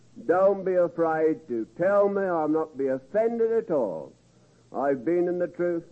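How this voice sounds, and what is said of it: Strong, hard-to-understand accent. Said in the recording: “because of my accent, I know you can't understand all I say”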